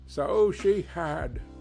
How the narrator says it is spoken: cried Scrooge

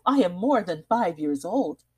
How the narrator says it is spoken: she added with a laugh

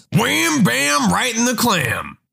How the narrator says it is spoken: This dude screams

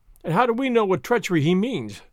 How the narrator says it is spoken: cried I

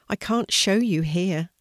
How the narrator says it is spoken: said Flame sadly

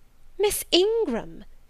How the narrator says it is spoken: exclaimed Mrs

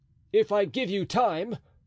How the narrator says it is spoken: cried the duke

